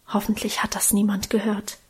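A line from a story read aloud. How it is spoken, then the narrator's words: Shy whisper. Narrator (German): scheu flüsterte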